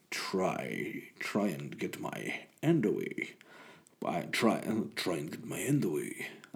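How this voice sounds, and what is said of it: A creepy put-on voice. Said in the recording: “I went from Sean Connery to a really creepy voice.”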